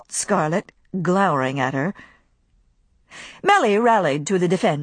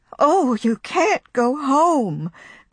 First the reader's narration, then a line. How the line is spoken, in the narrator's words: cried Pitty-Pat, bursting into tears